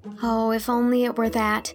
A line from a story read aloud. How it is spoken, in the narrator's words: sighed Anne